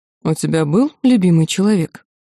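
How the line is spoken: Calm man's question. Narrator (Russian): спокойно поинтересовался мужчина

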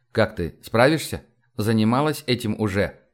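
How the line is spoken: Quiet question. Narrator (Russian): я тихо спросил

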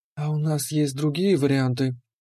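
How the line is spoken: Quiet. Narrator (Russian): тихо спросила Леандра

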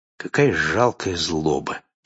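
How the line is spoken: Quiet. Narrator (Russian): тихо проговорил

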